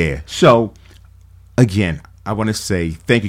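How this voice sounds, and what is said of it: Usual voice. Nothing is said of it.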